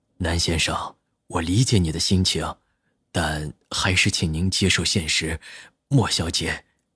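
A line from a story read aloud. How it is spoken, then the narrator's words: Soft, sympathetic. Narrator (Chinese): 医生有些同情的轻声说道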